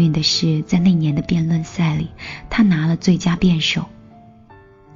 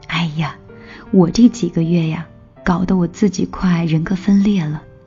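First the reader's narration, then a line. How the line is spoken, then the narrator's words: Joking. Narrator (Chinese): 我这个朋友开玩笑的说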